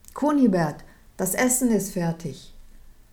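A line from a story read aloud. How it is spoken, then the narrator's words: Wife calling from above. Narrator (German): rief seine Frau von oben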